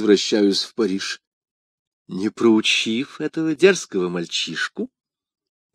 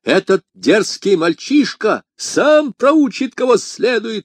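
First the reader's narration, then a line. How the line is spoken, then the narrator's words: Male exclamation. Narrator (Russian): воскликнул он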